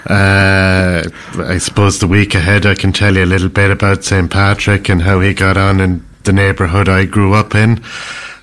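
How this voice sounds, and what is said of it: Irish accent. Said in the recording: “His accent is the most awesome ... you can imagine what the accent is with a name like ... I'm an Irish man”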